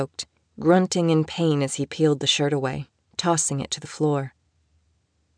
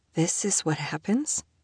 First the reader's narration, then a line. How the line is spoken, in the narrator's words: she asked, her voice wobbly